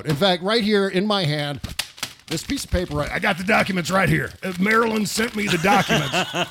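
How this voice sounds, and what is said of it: Imitates another person's voice. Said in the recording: “your Alice Jones is so good ... doing the Alex Jones voice.”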